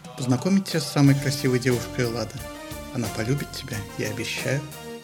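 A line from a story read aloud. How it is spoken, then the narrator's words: Whisper. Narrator (Russian): Афродита прошептала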